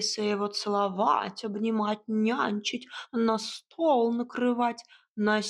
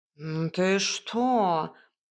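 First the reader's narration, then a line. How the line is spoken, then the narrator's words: Indignant cat hiss. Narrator (Russian): Кот возмущенно зашипел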